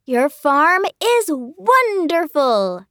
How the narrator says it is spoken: exclaimed Emerson

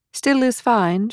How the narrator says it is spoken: she called out after him

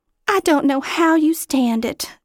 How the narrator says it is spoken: Sally sighed

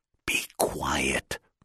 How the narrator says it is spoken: Robert whispered

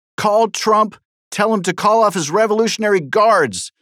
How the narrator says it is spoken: screamed Representative Steve Cohen of Tennessee

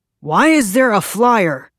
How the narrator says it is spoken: Pearson shouted at her

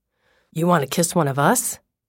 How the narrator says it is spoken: asked eagerly

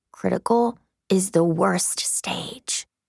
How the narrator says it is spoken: Birdie leans toward me and whispers

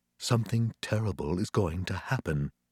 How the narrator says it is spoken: whispered in my ear

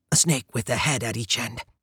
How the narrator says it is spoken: I whispered, then added helpfully

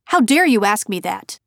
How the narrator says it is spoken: snapped

